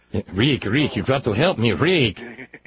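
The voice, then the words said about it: Weak Peter Lorre impression. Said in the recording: “my pathetic little Peter Lorre accent”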